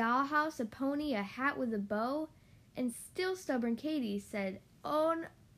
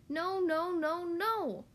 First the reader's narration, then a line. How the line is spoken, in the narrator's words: she grumbled and cried